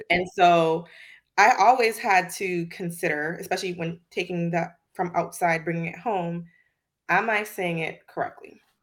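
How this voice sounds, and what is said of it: Slight Virgin Islands accent. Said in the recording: “I was originally born in the Virgin Islands, so I have a little bit of an accent ... I noticed that ... because I have an accent”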